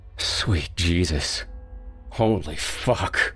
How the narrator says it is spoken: Rob moaned

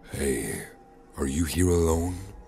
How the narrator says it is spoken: A raspy voice asked from further back

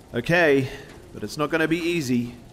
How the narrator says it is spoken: yelled Brian

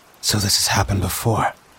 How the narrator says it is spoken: whispered to myself

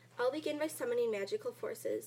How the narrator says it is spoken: said Zabba Zabba

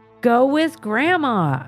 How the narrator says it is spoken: I said loudly

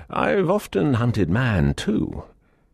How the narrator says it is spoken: with a hearty laugh, he added

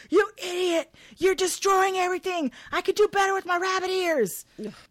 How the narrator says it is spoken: Howard to go ballistic and scream

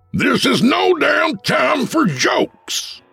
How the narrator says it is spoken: shouted the chief

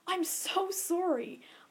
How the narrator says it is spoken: gasped

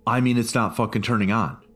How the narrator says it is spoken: Carter blurted out

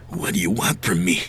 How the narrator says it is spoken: He whispered

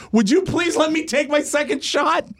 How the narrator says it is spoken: And he turns and he yells

